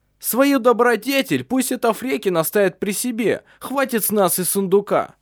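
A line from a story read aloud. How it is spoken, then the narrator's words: Shouted. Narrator (Russian): крикнул один из них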